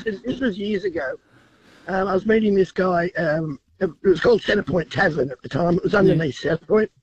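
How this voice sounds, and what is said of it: Voice affected by a cold. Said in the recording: “sorry about the voice. I've got a cold.”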